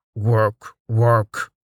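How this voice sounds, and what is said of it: Orc character voice. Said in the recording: “in his best orc voice, his impression enhanced by the heavy air”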